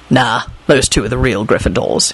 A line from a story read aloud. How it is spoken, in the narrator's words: he said gruffly